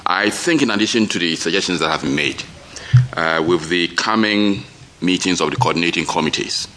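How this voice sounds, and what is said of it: Voice strained from a cold. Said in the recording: “Sorry for my voice. I'm also coming down with the cold.”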